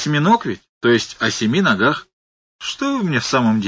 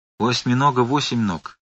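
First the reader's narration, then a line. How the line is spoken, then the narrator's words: Soft. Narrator (Russian): мягко сказал Фарфуркис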